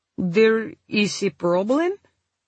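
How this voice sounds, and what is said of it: Heavy Polish accent. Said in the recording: “in a heavy Polish accent.”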